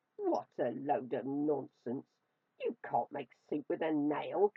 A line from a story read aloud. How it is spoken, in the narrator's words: cackled the old woman